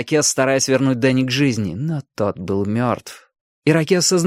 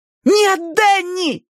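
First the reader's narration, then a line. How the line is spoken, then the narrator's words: Shout. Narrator (Russian): закричала Али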